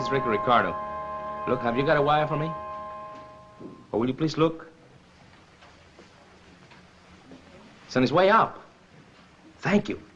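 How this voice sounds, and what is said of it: Whispering. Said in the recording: “why were you whispering?”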